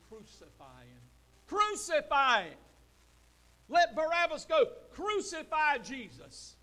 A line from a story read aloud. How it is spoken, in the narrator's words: that same bunch is screaming